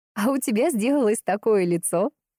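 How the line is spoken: Laughing. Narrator (Russian): рассмеялась Лиза

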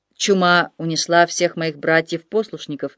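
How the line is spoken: Plain answer. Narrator (Russian): ответил монах

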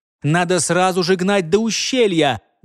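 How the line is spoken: Loud shout. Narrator (Russian): громко крикнул своему брату Амчак

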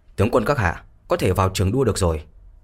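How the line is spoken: Raised announcing voice. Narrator (Vietnamese): một tên cấm vệ quân đột nhiên chạy vào cất cao giọng mà nói

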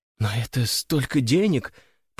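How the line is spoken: Incredulous mutter. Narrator (Russian): пробормотала графиня, будто никак не могла поверить своим глазам

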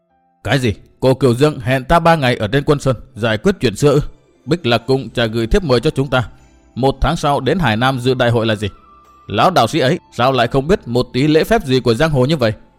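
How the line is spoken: Angry interrupting question. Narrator (Vietnamese): Hướng lão già không đợi Tử An nói dứt đã giận dữ hỏi

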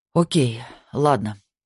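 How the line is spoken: Sighing. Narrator (Russian): наконец вздохнул он

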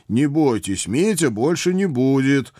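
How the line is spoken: Loud promise. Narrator (Russian): громко пообещал

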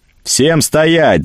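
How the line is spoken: Yelling. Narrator (Russian): заорал я

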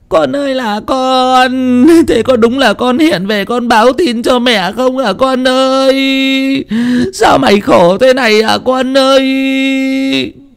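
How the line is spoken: Mother wailing in grief. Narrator (Vietnamese): Bà mẹ kia vừa đấm ngực thùm thụp, vừa nhìn xung quanh mà còn kêu gào

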